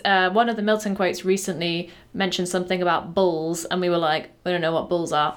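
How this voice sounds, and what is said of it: Northern English accent. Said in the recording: “the northern accent is harming you there”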